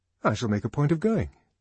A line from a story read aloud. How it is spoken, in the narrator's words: said Henry Foster